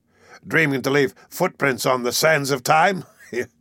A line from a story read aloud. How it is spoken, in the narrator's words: He laughed one of his horrible mocking laughs